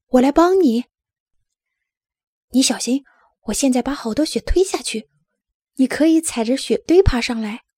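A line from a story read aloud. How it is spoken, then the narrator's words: Shouting. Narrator (Chinese): 拉尔斯喊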